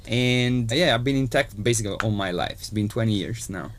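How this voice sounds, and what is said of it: Italian accent. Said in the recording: “Italian, as you can hear from my accent”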